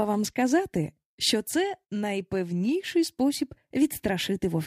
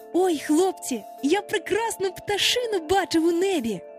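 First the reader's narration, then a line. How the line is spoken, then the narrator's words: Excited exclamation. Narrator (Ukrainian): вигукнув Хвалько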